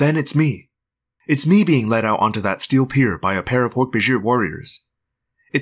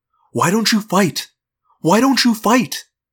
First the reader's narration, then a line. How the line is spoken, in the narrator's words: I'm mad at those poor people, and I want to yell